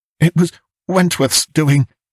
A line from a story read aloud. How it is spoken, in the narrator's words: he panted